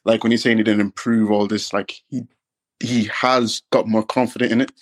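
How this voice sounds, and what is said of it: Irish accent. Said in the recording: “Love the accent. Where are you from? ... I'm from Ireland, bro.”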